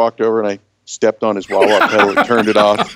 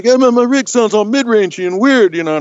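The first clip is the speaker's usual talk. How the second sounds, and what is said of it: Imitates another person's voice. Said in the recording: “that's a pretty good impersonation. ... Yeah, very good.”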